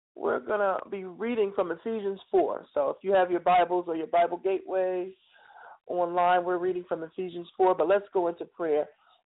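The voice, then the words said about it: Tired-sounding voice. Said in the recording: “You probably can hear it in my voice. I'm a little bit tired tonight”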